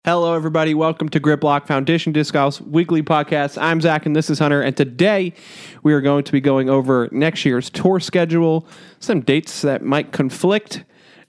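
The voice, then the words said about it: Slightly odd, scratchy-throated voice. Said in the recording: “I have a cough drop in my mouth. If I sound a little weird, throat's feeling a little scratchy.”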